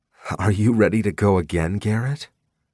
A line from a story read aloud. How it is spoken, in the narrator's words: She said sleepily